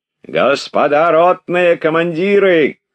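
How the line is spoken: Commanding shout. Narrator (Russian): крикнул он голосом привычным команде

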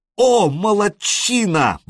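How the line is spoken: Exclaimed. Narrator (Russian): воскликнул Элис

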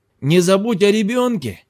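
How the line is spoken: Insistent shout, then yelling. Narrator (Russian): крикнул настойчивый Джат через плечо и потом заорал на пенджаби

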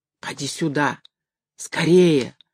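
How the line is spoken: Breathless whisper. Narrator (Russian): задыхаясь, шептала женщина

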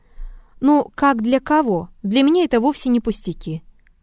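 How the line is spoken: Calm objection. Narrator (Russian): Триродов спокойно возразил

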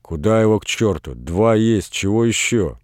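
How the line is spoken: Grumbling. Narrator (Russian): Варвара ворчала

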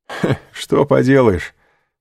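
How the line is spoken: Laughing. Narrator (Russian): сказал Дантес, смеясь

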